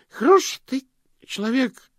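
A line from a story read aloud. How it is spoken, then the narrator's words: Hiccuping drunken speech. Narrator (Russian): проикал Слыпень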